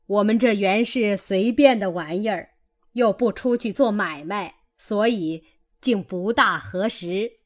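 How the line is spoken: Laughing. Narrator (Chinese): 贾母笑道

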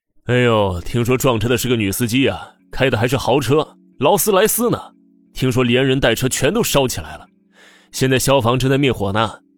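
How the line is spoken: Loud crowd chatter. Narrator (Chinese): 前面的人高声议论着

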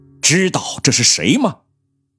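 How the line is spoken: Sudden sharp rebuke. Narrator (Chinese): 赵珍惜突然厉声呵斥了一声

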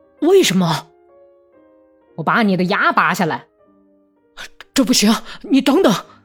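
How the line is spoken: Pained shout. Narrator (Chinese): 他捂住腮帮子喊道

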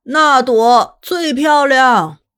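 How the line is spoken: Shouting over noise. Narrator (Chinese): 烟火声太大也太吵，他不得不大声喊

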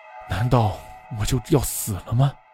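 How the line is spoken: Sighing. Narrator (Chinese): 忍不住叹了口气

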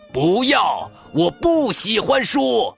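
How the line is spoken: Angry shout. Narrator (Chinese): 大熊狠狠的把门关上，喊道

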